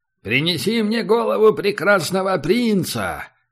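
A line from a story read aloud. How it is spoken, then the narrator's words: Thunderous command. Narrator (Russian): велел Оскар громовым голосом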